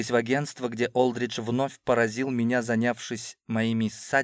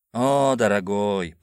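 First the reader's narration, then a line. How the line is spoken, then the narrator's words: Drawn-out smiling voice. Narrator (Russian): протянул он с улыбкой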